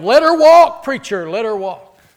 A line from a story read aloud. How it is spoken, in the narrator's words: someone in the back yelled